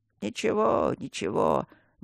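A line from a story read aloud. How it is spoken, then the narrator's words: Old man's sobbing mutter. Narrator (Russian): бормотал дед, жалко всхлипывая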